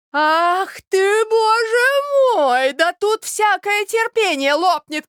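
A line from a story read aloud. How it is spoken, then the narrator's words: Exasperated, despairing shouting. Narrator (Russian): кричала Марья Александровна в выступлении, ломая руки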